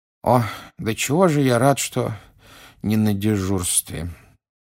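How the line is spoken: Sleepy mumbling. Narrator (Russian): сонно пробормотал мистер Уизли

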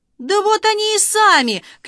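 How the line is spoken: Loud joyful shout. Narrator (Russian): крикнул он радостно на весь берег

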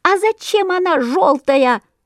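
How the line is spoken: Squeaky chorus of sparrows. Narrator (Russian): запищали разом все воробьи

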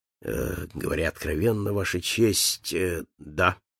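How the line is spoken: Lowered voice. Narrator (Russian): понизив голос, сказал

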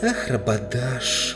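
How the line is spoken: Breathless exhale. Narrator (Russian): выдохнула Люси

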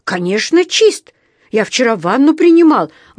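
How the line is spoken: Indignant exclamation. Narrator (Russian): воскликнул он возмущенно

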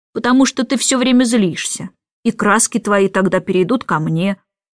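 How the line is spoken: Calm objection. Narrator (Russian): спокойно возразил Майкл

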